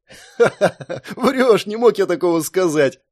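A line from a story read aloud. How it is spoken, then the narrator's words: Laughing. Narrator (Russian): рассмеялся Джерри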